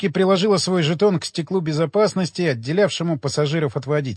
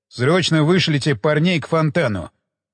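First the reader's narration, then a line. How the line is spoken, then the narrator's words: Sharp command. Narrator (Russian): резким тоном приказал Уилсон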